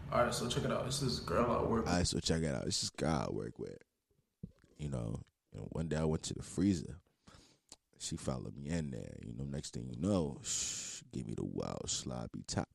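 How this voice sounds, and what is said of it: Put-on sexy voice. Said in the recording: “why put your sexy voice on? ... why do you have your sexy voice on? Take your sexy voice off”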